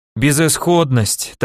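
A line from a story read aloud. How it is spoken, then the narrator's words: Teacher's melancholy sigh. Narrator (Russian): тоскливо вздохнул мой учитель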